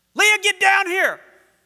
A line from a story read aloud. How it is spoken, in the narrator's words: Brooke yelled